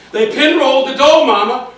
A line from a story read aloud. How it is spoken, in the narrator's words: Irwin yells over their engine noises